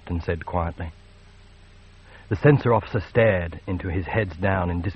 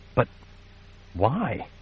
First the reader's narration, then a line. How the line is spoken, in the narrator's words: Zai stammered